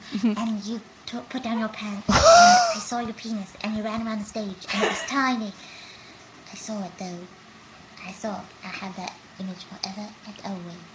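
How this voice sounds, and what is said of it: High-pitched Moaning Myrtle character voice. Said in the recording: “that was supposed to be Moaning Myrtle ... That's a really good impression ... she had a really high voice”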